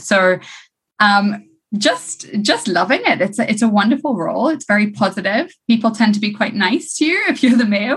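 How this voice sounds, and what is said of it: Slightly different, non-local accent. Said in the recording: “I was born in Zimbabwe, which is why my accent is slightly different”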